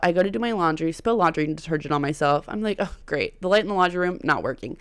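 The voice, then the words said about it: Weird, sore-throated voice. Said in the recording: “I'm so sorry if my voice sounds weird. I woke up with a sore throat.”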